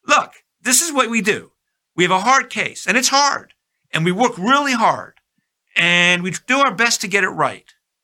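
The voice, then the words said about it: Imitating Justice O'Connor's tone. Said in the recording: “I'm talking in her tone of voice.”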